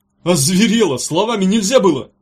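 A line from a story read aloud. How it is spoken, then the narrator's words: Yelling. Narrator (Russian): заорал он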